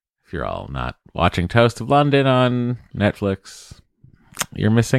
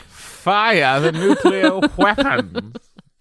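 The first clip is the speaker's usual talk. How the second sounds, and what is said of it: Imitates another person's voice. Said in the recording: “Matt Berry's accent.”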